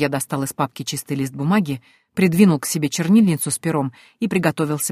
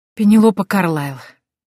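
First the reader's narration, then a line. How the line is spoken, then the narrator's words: Sigh. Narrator (Russian): я вздохнула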